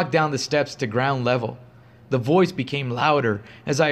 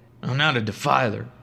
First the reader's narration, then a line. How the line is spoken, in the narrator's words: I mumbled back to no one